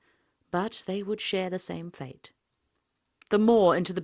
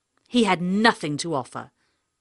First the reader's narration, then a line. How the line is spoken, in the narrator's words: she spat